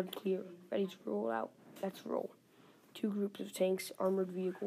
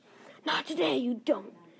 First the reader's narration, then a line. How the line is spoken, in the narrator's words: Steve screams